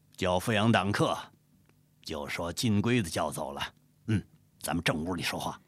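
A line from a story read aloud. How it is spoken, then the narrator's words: Cold. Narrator (Chinese): 黄天霸冷冷说道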